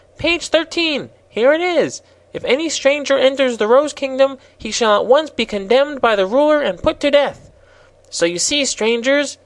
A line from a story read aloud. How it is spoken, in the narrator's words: he continued triumphantly